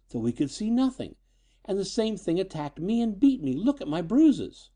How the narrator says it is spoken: she replied shakily

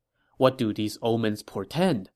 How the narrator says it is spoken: Liu Bei asked

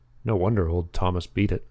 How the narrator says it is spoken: he said

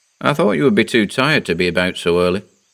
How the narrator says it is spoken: he said

